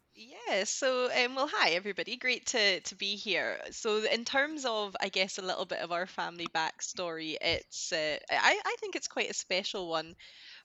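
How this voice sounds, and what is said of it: Scottish accent. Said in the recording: “Obviously, you've got a Scottish accent”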